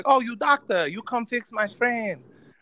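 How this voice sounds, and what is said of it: Mocking caricatured foreign accent. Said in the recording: “Wait, did you just do a racist accent?”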